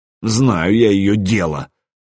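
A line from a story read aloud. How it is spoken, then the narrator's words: Snort. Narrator (Russian): Квашак хмыкнул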